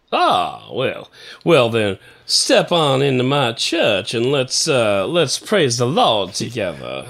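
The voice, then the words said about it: Smooth baritone Southern gospel preacher voice. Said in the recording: “Sound to me like you have the smooth baritone of a... Southern gospel preacher.”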